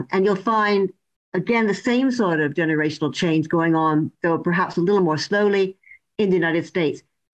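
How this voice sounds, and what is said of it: Canadian accent. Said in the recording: “my accent isn't English ... I'm originally from Canada ... My accent stays the same.”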